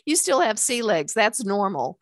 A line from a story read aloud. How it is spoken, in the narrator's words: laughed